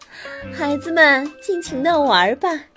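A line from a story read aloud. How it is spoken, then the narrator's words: Happy laughing young deer. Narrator (Chinese): 勇敢的小鹿露露开心的笑着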